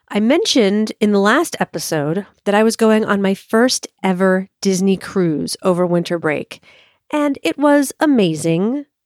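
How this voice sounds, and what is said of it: Sick-sounding voice. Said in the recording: “I have a little cold, so please excuse my voice”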